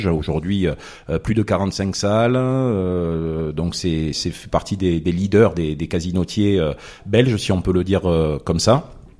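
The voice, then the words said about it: Marseille southern French accent. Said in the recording (French): “originaire de Marseille. Bon, je pense que mon accent le trahit... Oui, c'est plus vous trahissez un peu.”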